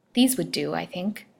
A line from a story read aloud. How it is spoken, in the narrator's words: she murmured to herself